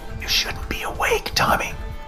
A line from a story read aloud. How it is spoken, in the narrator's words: Dad whispered